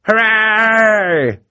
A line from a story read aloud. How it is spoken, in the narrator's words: cried a voice from the audience